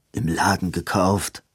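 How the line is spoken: Murmured. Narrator (German): murmelte Edwin

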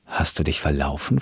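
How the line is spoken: Plain. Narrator (German): fragte er

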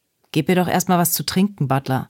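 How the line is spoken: Plain. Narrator (German): sagte Wyatt

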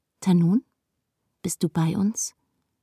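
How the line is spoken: Plain question. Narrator (German): fragt Lilima

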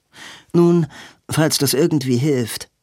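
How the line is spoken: Dry. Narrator (German): sagte Robin trocken

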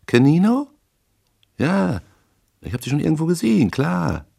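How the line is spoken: Sharp squeaky voice. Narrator (German): Die scharfe Piepsstimme drang hindurch und sagte

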